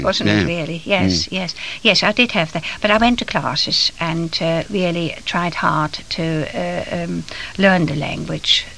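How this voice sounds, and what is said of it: Noticeable foreign accent. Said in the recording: “my children wouldn't pick up too much of my accent ... It sounds a fine accent to me”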